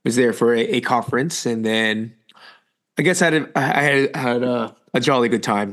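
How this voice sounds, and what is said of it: Slightly raspy voice. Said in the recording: “You, you sound a little a little raspy.”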